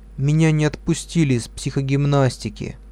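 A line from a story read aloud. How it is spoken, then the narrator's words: Sad, dull voice. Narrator (Russian): Лиля грустная потухшим голосом сказала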